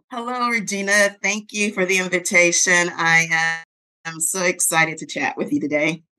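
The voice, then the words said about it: Slight Southern American accent. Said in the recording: “I kind of ish hear a little bit of an accent. ... I'm very much a Southern girl. ... born and raised in New Orleans”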